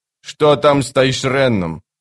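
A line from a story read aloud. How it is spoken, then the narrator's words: Sharp question. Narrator (Russian): резко спросил капрал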